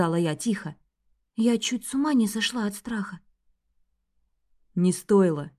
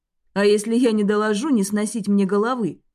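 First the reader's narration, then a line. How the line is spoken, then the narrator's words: Snorting. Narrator (Russian): хмыкнул Лем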